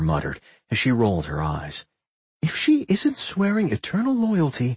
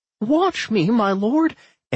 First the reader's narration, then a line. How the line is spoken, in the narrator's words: Anodyne cried out